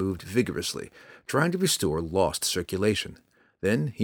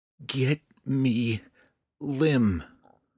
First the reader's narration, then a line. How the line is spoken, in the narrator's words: Drizzt stuttered, not knowing any words for wood or tree